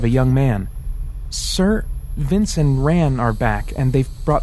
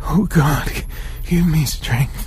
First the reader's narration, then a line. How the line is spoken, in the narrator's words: he moaned in utter helplessness